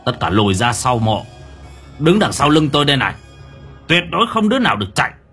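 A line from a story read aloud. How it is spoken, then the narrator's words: Old man shouting. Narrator (Vietnamese): Lão quát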